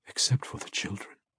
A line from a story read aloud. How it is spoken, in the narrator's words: he whispered